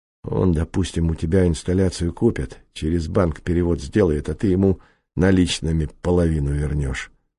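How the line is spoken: Quick realization. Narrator (Russian): быстро сообразил прокурор

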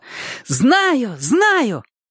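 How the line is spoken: Sudden shout. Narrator (Russian): она вдруг крикнула

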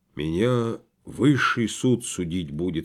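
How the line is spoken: Hollow muffled voice. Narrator (Russian): сказал глухо

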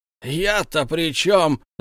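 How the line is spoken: Loud wail. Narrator (Russian): завопил Том

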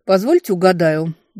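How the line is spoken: Grumbling. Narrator (Russian): буркнула

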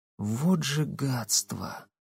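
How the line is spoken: Barely audible. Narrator (Russian): чуть слышно произнесла Татьяна

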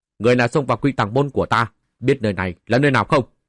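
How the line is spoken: Loud challenging shout. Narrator (Vietnamese): vài vu sĩ thủ sơn ... cao giọng quát

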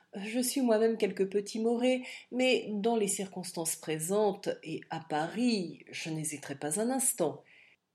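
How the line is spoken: Conciliatory tone. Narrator (French): ajouta l'avoué d'un ton conciliant

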